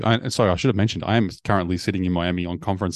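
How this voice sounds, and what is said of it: Australian accent. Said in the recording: “the Aussie accent, ... It doesn't sound like the sexiest voice”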